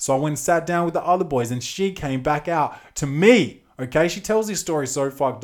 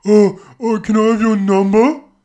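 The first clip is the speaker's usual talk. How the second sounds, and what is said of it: Mocking exaggerated cutesy girlfriend voice. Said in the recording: “she does the, you know how chicks do the, the voice for their boyfriends like ... I can do that fucked up voice shit too”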